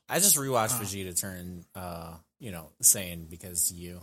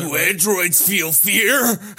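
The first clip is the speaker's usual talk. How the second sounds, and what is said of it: Imitates a cartoon character's voice. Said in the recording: “I did my best impersonation there. ... For a second, he turned into Vegeta.”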